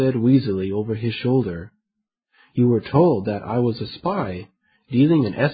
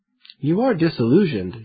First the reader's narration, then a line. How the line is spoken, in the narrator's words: James said